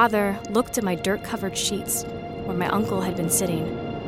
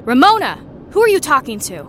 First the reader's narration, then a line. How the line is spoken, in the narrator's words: My uncle growled